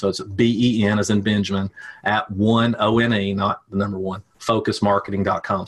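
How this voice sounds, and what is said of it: Regional accent, '' sounds like 'bin'. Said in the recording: “That's not B-I-N. Yes, I know it sounds like that. That's just my accent.”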